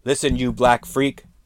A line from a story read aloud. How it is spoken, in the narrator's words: Albrecht shouted in the dark